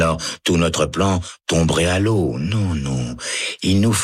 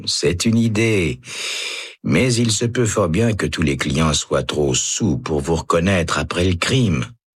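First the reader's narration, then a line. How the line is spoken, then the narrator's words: Man sighing. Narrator (French): soupire l'homme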